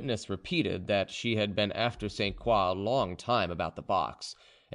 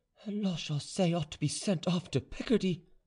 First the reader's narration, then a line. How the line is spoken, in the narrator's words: muttered to herself